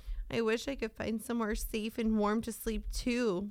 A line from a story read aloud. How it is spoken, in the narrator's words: Ollie sighed